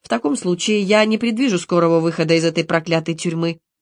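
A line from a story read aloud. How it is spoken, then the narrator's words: Joking tone. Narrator (Russian): ответил шутливым тоном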